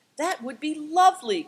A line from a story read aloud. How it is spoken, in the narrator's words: cried Seven Stars